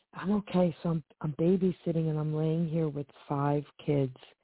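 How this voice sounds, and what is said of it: Whispering, quiet voice. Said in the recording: “that's why I'm whispering. ... I can't really talk too long or loud”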